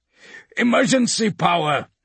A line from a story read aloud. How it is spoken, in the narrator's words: shrieks Kovasha